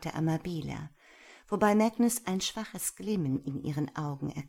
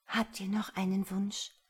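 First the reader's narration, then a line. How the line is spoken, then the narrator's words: Whispered. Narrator (German): flüsterte sie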